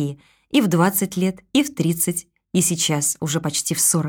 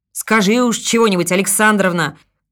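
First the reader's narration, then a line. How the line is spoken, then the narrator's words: Driver shouting. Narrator (Russian): крикнул кто-то из шоферов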